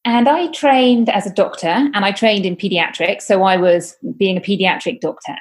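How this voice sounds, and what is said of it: British accent. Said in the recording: “I am from the UK, as you may hear from my accent,”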